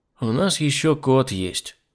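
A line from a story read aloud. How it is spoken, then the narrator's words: Sigh. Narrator (Russian): вздохнул я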